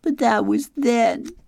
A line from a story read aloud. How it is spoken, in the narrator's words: she sobbed